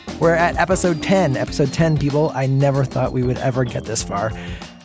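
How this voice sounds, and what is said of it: Congested, stuffy-sounding voice. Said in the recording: “I have a small cold. That's why my voice sounds different.”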